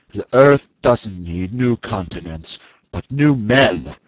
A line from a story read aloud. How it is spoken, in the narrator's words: he answered me coldly